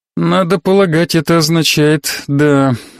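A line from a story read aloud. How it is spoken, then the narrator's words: Sighing. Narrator (Russian): вздохнула Корделия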